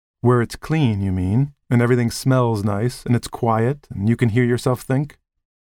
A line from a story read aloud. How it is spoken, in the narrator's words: She laughed at herself, or perhaps for his sake, to reassure him